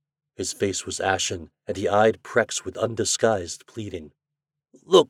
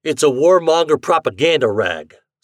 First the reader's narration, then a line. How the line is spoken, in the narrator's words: snapped Shandor